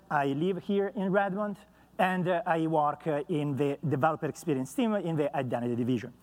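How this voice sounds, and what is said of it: Noticeable accent. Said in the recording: “as you can hear, as usual from my accent.”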